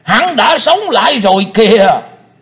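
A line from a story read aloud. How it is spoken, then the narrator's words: Thunderous echoing shout. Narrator (Vietnamese): Tiếng quát chấn động cả mặt sân tràng, vang dội cả không gian một chập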